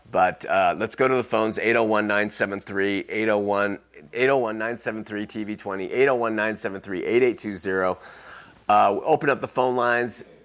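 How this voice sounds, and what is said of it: Strained, failing voice. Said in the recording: “I'm also losing my voice”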